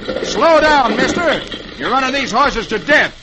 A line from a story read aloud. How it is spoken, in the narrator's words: he yells